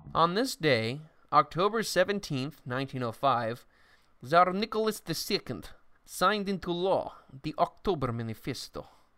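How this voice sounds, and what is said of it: Put-on Russian accent. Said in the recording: “I really have to cut out the accent. ... it's just hard for me to talk about Russia without talking like this.”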